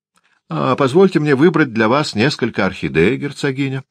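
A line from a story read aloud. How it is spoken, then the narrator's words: Lively exclamation. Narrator (Russian): воскликнул Дориан с живостью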